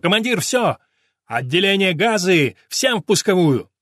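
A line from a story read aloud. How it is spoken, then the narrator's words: Shout. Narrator (Russian): Негруца прокричал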